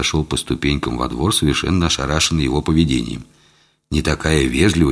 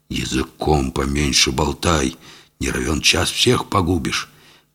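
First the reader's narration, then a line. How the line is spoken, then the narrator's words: Hiss in strange voice. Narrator (Russian): совершенно чужим голосом прошипел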